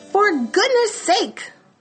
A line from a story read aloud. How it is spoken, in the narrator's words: bellowed Mr